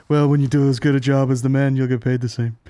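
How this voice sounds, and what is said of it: Imitates another person's voice. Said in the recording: “I wish I could do a better impression”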